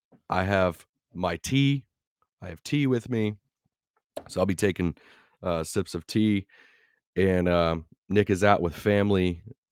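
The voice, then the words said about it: Weird, sick-sounding voice. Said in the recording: “why do you sound weird? Guys, I'm sick. ... I'm sick. This is how my voice is going to sound.”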